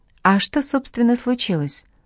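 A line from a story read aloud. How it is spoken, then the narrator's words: Innocent-toned question. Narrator (Russian): Ада невинным тоном спросила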